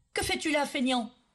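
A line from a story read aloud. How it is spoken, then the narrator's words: Yell. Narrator (French): hurla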